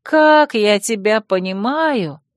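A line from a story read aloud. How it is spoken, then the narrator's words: Groaning. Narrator (Russian): простонала я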